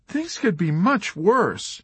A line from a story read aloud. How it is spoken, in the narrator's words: she cried